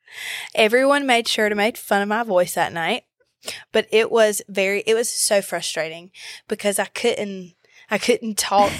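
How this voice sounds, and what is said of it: Slightly hoarse voice. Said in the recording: “it's back, but it's a little hoarse. ... you have no voice.”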